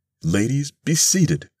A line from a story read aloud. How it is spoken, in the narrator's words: Thurkel might have cried, or been tempted to cry